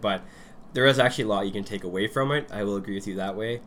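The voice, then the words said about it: Congested head-cold voice. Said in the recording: “You sound a little under the weather today ... I got a head cold ... I'll probably sound worse than usual”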